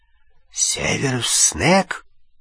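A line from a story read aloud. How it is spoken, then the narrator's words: Hoarse whisper. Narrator (Russian): обычный хриплый шепот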